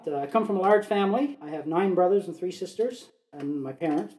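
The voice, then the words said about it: Slight Newfoundland accent. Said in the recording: “I am from the East Coast. I'm a Newfoundlander. You might detect a little bit of an accent. It comes out once in a while.”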